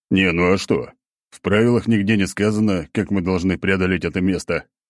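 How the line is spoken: Laughing. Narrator (Russian): хохотал я

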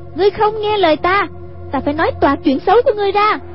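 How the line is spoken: Crying out. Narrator (Vietnamese): Hoàng Dung kêu lên

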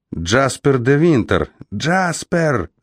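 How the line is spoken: Frantic yell. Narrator (Russian): завопил, дико замахав рукой

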